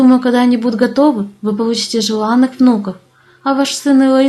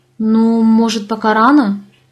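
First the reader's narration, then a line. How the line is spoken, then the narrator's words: Uncertain. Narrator (Russian): неуверенно заметила я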